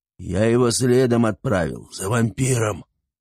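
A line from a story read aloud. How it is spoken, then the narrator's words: Beastly growl. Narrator (Russian): прорычал волколак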